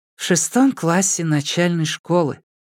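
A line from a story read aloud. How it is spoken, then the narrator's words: Sighing. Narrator (Russian): вздохнула Цуй Юй Цуй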